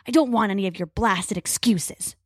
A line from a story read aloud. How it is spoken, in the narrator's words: Crow snarls